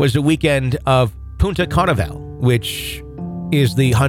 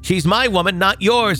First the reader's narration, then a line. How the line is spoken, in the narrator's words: he screamed